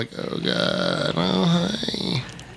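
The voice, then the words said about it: Exaggerated vocal fry. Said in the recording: “Vocal fry.”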